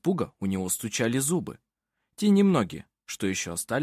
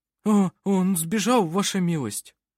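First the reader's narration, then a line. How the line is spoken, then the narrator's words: Strained forced words. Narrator (Russian): Выдавил из себя работник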